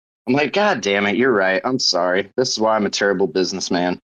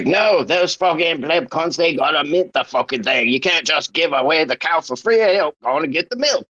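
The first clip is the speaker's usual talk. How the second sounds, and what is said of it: Bad put-on Cockney Australian accent. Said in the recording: “That was the most Cockney Aussie accent I've ever heard in my life... My accent, it's terrible. It's a terrible accent.”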